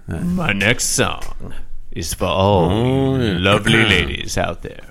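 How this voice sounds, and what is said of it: Imitates another person's voice. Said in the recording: “it's a weird Barry White, yeah. Milton Berle hybrid”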